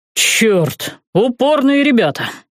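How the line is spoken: Exasperated exhale. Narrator (Russian): выдохнул Алекс

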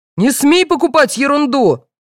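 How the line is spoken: Father yelling. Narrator (Russian): заорал отец

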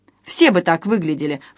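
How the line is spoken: Snort. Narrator (Russian): фыркнул Жора

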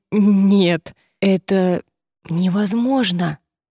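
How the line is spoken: Wheezed. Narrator (Russian): просипел он

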